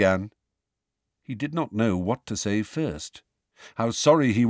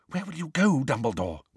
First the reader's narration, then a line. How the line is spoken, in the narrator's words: whispered Professor McGonagall